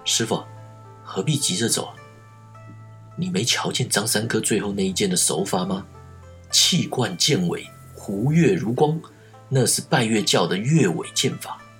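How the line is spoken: Low-voiced question. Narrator (Chinese): 庄生低声问道

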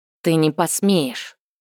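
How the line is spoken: Angry hiss. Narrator (Russian): зло прошипела Тинувиэль

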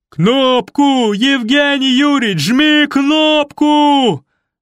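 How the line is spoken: Yelling. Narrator (Russian): заорал Федор Кузьмич

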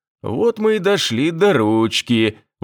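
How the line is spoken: Laughing. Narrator (Russian): Василий Иванович засмеялся

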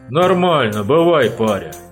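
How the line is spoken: Calm, dismissive. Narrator (Russian): спокойно отмахнулся от него опытный Саныч

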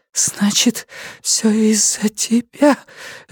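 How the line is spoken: Woman breathing hoarsely. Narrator (Russian): женщина хрипло задышала

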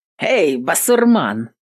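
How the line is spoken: Loud bark. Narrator (Russian): Гаркнул он

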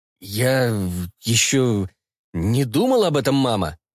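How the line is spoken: Halting, measured reply. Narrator (Russian): Запинаясь с расстановкой, ответил Фокс

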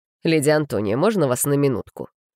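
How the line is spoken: Icy tone. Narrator (Russian): Ледяным тоном обратился он к ней

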